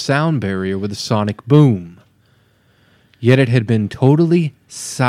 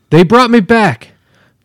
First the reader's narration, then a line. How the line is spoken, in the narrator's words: I shouted something like